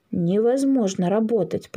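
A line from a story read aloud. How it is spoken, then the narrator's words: Grumbling. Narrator (Russian): пробурчал Коновалов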